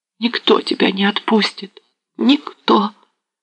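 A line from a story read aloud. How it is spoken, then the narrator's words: Quiet wail, dying tone. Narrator (Russian): Заголосила она тихо, как поет умирающим звуком надорванная струна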